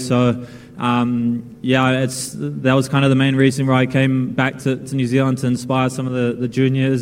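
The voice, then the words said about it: New Zealand accent. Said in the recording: “very much Kiwi in the accent.”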